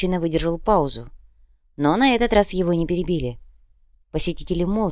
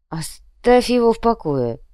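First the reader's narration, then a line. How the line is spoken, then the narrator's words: Grumbled. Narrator (Russian): пробурчал бармен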